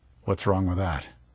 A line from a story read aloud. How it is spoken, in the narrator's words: Juhayman grunted unhappily